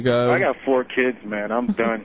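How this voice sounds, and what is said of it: Tired-sounding voice. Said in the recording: “He sounds so tired. ... Just sounds, I got 4 kids, bro.”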